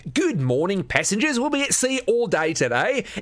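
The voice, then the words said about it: Overly cheerful Australian accent. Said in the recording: “Some guy with an Australian accent who sounded way too happy.”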